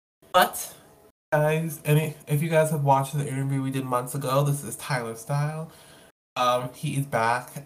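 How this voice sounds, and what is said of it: Sick-sounding, weird voice. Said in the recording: “my voice is a little bit under the weather, so if it sounds weird”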